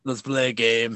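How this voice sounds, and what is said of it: Poor Jigsaw villain voice impression. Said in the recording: “That was my Jigsaw impression. ... That's a pretty awful impression.”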